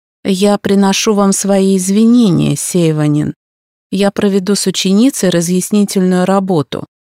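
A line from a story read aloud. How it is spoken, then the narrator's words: Even tone. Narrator (Russian): произнес Тецуя ровным тоном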